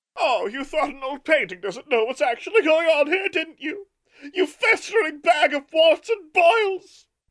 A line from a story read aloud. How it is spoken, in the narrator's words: Martha shrieked with rage